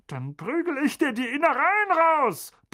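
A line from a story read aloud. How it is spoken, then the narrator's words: Blustering. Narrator (German): polterte Onkel Vernon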